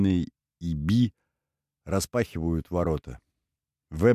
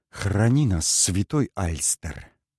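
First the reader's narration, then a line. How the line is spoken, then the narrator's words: Mutter. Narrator (Russian): бормочет Саммер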